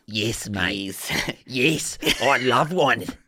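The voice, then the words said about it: Put-on Australian accent. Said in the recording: “Would you want an Australian accent? ... An Australian accent, mate. Yes, from Australia.”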